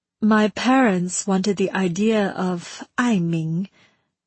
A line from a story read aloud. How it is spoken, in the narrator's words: she said